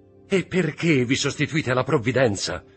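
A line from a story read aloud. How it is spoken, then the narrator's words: Shouting. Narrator (Italian): gridò Mercedes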